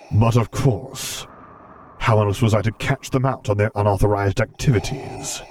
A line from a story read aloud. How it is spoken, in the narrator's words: rumbled out